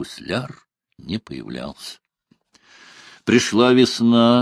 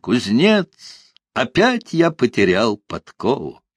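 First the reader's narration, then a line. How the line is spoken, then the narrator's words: Cheerful shout. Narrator (Russian): гусляр крикнет веселым голосом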